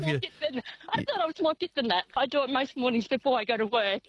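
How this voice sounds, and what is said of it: Out of breath while talking. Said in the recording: “I can hear you're out of breath.”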